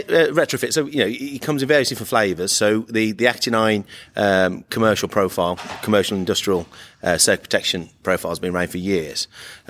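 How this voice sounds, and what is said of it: Croaky voice. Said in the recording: “my voice is a little bit croaky”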